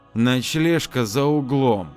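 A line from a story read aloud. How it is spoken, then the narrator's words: Said through gritted teeth. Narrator (Russian): Ада процедила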